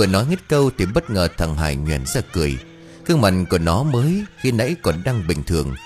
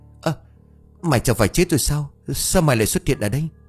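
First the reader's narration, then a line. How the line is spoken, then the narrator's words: Voice turning shaky. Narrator (Vietnamese): bất ngờ nhớ ra chuyện, giọng của tôi chuyển sang run rẩy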